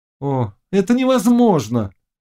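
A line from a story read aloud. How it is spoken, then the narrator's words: Shout. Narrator (Russian): крикнул Володаевский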